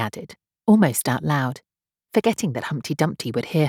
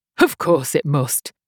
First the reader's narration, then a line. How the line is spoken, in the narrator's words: Humpty Dumpty said with a short laugh